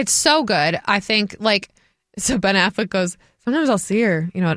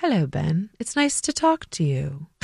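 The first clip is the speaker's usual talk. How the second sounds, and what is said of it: Put-on British accent. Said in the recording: “With that British accent.”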